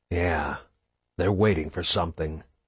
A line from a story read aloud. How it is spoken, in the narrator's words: Marcus whispered